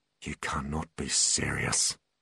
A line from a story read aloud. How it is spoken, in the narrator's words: muttered Butler